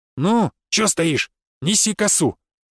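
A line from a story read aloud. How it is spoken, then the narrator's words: Barking shout. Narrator (Russian): Рявкнуло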